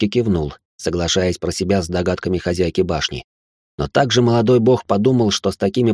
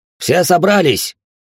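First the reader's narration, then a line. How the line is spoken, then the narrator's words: Redhead's bark. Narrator (Russian): рявкнул рыжий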